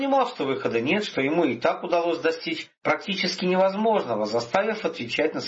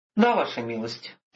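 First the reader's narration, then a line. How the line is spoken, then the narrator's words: Sighing. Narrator (Russian): вздохнул Виктор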